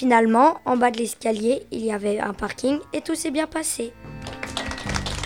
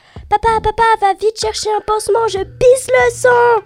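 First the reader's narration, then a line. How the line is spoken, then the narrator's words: Screamed. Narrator (French): ai-je hurlé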